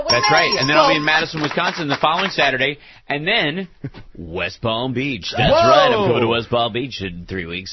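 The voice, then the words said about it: Cheesy morning radio DJ voice. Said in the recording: “talking like a morning radio puker”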